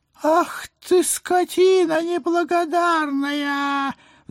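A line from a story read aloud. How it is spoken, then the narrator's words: Howl. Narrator (Russian): взвыл гражданин Груздев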